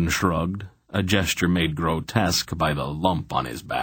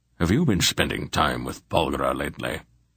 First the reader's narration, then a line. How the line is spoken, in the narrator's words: Belgarath asked dryly